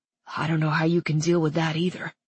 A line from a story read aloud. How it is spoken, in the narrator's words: Keeney said in a low tone intended only for her